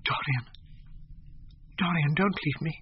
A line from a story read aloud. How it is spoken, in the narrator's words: she whispered